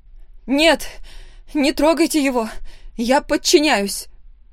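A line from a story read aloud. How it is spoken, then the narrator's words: Desperate shout. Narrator (Russian): В отчаянии закричала я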